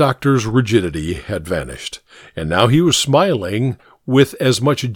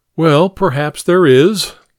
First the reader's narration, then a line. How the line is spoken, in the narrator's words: Hare laughed amiably